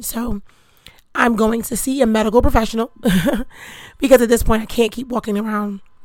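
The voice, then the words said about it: Strained, struggling voice. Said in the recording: “As you can hear, my voice is still struggling”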